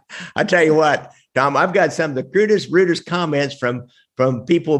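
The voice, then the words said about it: Northwest Missouri nasal twang. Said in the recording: “Southern accent or cornpone accent or hillbilly accent ... what I have is more a Northwest Missouri nasal twang”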